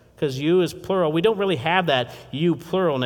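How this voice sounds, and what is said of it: Usual voice. Nothing is said of it.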